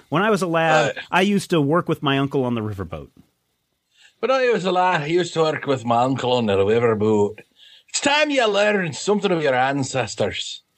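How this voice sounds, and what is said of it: Put-on Scottish accent. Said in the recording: “do your Scottish accent”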